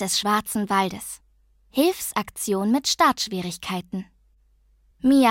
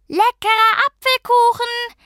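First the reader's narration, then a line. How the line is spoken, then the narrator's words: Shouting as loud as possible. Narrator (German): rief Mia so laut sie konnte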